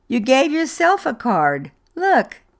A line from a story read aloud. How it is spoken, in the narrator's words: laughed